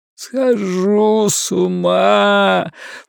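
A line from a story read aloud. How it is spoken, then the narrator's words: Groaning. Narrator (Russian): простонал Ларри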